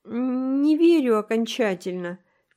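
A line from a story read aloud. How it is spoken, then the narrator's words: Uncertain. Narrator (Russian): неуверенно сказала Энн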